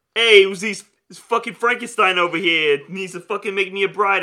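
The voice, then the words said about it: Put-on New Jersey accent. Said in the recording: “just speaking, you know, New Jersey accent. A dude.”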